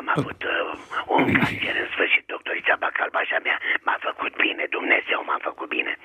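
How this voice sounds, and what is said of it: Hoarse, damaged-sounding voice. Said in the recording (Romanian): “Sunteți răgușit și dumneavoastră? ... Mi-a tăiat o coardă vocală.”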